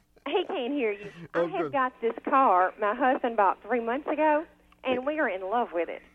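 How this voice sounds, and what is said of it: Southern American accent. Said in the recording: “what a wonderful Southern accent you have”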